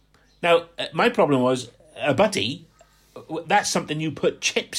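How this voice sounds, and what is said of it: Usual voice. Nothing is said of it.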